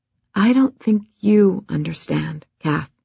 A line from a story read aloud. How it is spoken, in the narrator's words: the professor said, her voice deliberately calm